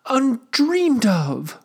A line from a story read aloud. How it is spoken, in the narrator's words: cried Mercedes in dainty dismay